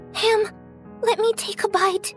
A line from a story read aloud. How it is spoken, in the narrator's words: The little match girl said excitedly